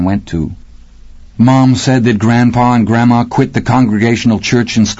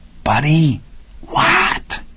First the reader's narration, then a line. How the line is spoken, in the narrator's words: An irritated hiss